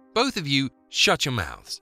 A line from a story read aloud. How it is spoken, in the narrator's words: snapped Lena